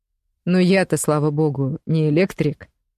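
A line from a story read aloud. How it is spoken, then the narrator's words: Amused snort. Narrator (Russian): хмыкнул Клим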